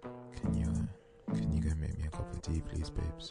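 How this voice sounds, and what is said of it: Put-on sexy voice. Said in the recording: “that's the power of a sexy voice ... It's sexy voice”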